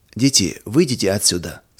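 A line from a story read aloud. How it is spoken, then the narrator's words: Plain. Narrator (Russian): сказал отец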